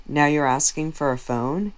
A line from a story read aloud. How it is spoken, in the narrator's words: Christine said